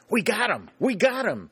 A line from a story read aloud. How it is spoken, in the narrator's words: he cried over and over again